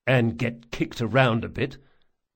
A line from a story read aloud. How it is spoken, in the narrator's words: muttered Locke